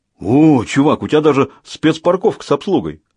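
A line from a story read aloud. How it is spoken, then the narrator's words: Exclaimed. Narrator (Russian): воскликнул Хват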